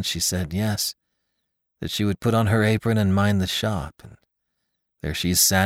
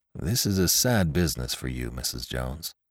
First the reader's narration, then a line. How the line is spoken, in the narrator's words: said the young man in a low, sympathetic tone